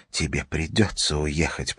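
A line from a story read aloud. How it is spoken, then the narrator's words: Whisper. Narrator (Russian): прошептала она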